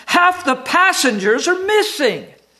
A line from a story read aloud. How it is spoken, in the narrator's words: screamed